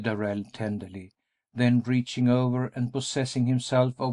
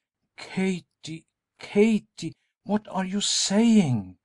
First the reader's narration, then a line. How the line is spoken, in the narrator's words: Darrell exclaimed